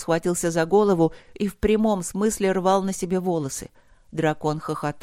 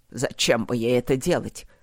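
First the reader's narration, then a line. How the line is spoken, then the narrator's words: Dragon's snort. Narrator (Russian): хмыкнул дракон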